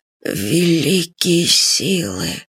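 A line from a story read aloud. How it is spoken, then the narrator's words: Hoarse voice. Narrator (Russian): хрипло сказал маршал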